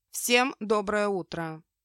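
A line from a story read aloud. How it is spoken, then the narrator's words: Calm and confident. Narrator (Russian): Сказано спокойно и уверенно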